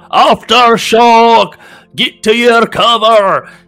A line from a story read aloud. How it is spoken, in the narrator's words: a dwarf above shout